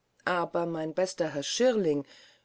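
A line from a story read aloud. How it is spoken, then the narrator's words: Official calling out. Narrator (German): rief der Regierungsrat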